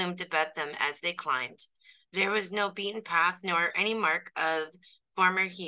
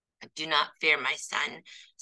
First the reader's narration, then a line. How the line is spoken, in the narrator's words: said the Bodavista